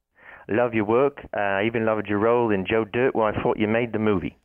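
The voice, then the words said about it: Michael Caine impression. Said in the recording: “doing a Michael Caine impression. ... whoever this is doing Michael Caine's voice.”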